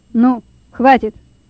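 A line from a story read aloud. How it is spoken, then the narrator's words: Boss speaking sternly. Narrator (Russian): строго сказал начальник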